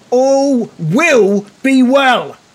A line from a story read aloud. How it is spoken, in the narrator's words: shouts